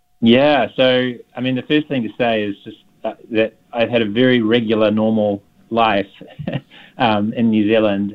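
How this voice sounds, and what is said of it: Slight New Zealand accent. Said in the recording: “a little bit of a New Zealand accent”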